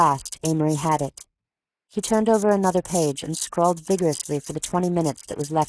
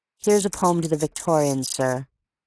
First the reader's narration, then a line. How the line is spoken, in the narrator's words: he said coldly